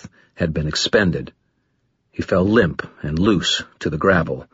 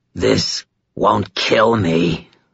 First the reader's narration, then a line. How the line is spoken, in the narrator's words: the creature snarled